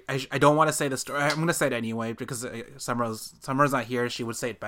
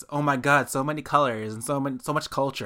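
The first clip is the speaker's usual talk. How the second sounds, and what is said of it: Valley Girl accent. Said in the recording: “I'm saying it in that way in like the Valley Girl accent”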